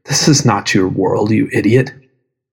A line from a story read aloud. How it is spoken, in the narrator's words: you whispered